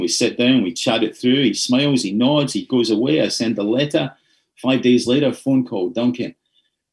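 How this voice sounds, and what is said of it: Softened Scottish accent. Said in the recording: “my Scottish accent was so thick back in those days ... I had to kind of temper my accent down to this is as tempered as it gets”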